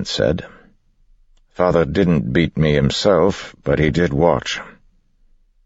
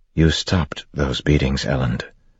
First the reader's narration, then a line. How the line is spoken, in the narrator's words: Vin said softly